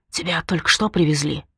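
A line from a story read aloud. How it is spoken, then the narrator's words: Whisper. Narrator (Russian): прошептал человек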